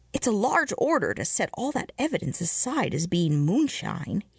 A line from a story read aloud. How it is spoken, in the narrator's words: he said